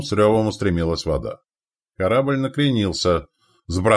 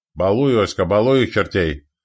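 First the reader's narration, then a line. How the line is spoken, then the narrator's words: Excited growl, close to ear. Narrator (Russian): азартно рычал над ухом Анцифор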